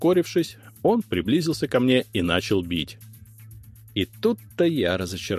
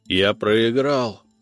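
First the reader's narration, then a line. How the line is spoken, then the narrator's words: Sighing young man. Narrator (Russian): Парень вздохнул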